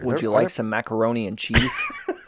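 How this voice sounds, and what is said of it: Put-on American accent. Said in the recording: “I do a really good American accent ... it's spot on ... your American accent is ... It's crystalline”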